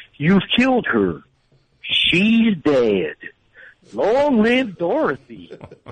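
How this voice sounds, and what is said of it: Impression of Wizard of Oz character. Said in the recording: “I do the guy from The Wizard of Oz. I think it's spot on. Everyone hates it.”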